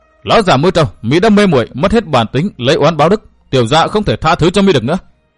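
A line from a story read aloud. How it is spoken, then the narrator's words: Enraged shout. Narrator (Vietnamese): Cổ Ngọc Thanh cả giận quát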